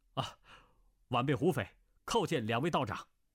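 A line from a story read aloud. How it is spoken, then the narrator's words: Hurried, respectful. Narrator (Chinese): 急忙拜道，说道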